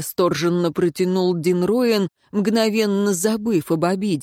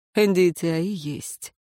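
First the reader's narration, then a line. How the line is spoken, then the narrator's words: Quiet snort. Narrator (Russian): тихо хмыкнул советник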